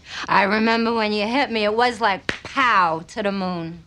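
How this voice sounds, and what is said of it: Thick New York accent. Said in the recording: “Her accent's thicker, more New York, a little more Charmaine”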